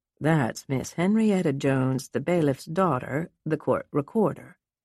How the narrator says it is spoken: Tom explained

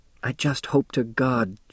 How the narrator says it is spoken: she whispered

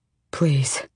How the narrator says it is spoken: Kael said hoarsely to the king

